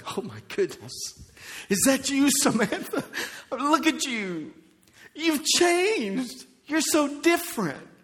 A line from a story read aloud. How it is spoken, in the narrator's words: gasping and saying